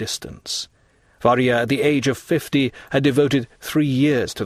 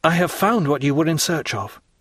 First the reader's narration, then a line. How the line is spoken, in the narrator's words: the young man suddenly exclaimed